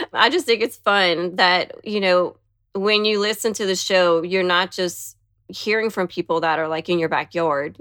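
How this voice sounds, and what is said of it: Louisiana Southern accent. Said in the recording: “I'm always the one that has the accent... I'm from Louisiana”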